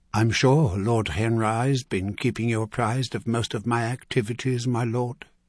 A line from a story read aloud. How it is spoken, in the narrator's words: she replied